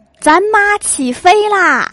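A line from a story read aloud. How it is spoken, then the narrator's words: Impulsive shout. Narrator (Chinese): 心血来潮喊了一句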